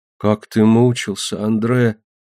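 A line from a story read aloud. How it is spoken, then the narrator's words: Whisper. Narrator (Russian): прошептал Лусин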